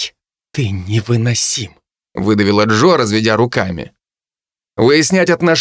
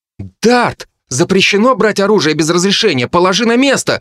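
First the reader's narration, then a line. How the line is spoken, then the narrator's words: Girl shouting. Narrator (Russian): выкрикнула одна из девушек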